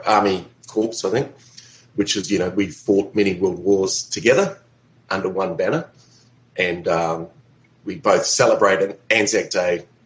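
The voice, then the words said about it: New Zealand accent. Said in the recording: “they may detect my accent. I'm actually originally from New Zealand”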